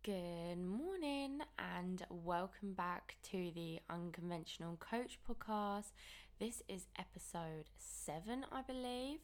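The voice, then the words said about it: Slightly croaky voice. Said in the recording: “hopefully my voice isn't too croaky for you all... I hate that annoying morning voice... I can tell that it is a little bit croaky”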